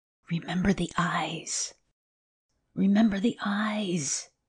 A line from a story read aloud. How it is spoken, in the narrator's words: hissed Thorpe in the air above him